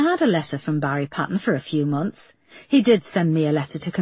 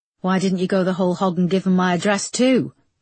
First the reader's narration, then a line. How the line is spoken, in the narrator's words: snapped Erica